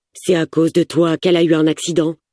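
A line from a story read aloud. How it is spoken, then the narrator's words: Harsh questioning. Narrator (French): l'interroge durement Amir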